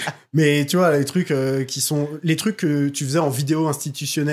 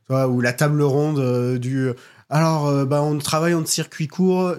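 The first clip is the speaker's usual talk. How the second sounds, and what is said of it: Put-on accent in a quoted line. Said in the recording (French): “Je sais pas pourquoi je prends cet accent.”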